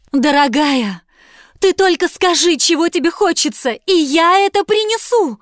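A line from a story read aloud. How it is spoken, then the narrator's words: Pleading husband. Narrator (Russian): взмолился муж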